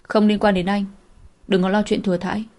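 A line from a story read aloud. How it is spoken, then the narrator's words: Cold refusal. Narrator (Vietnamese): Cô lạnh lùng từ chối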